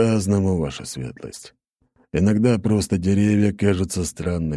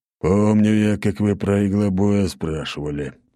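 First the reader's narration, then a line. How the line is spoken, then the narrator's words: Grumbling. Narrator (Russian): проворчал Ратай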